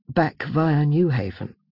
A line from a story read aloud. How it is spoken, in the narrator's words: she added with a sigh